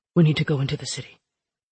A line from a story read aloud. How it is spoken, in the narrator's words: the forger said quietly, pitching his voice lower